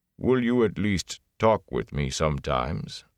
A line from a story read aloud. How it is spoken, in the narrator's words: Loyal sighed, a bass rumble